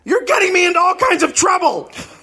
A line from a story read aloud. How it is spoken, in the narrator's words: He suddenly yelled at Catherine